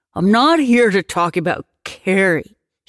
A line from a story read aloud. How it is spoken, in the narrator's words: he said, raising his voice